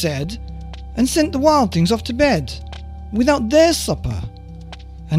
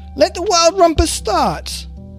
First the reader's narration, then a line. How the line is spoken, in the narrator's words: cried Max